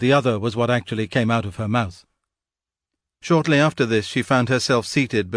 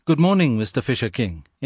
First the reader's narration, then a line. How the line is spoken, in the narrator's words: in an easy tone